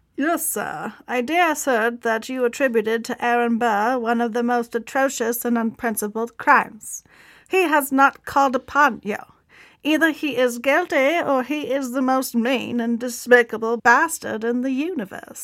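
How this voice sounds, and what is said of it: Put-on transatlantic accent. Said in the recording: “I like your transatlantic accent. ... That was pretty good.”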